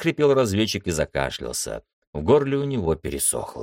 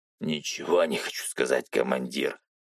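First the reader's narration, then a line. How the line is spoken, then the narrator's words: Hoarse. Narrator (Russian): хрипло продолжал боец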